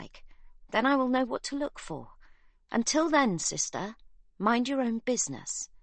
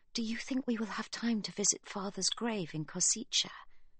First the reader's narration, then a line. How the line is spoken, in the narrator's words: Livy whispers